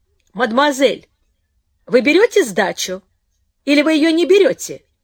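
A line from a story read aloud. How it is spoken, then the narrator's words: Angry taxi driver calling. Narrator (Russian): сердито окликнул таксист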